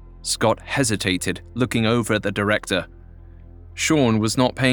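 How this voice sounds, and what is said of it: Usual voice. Nothing is said of it.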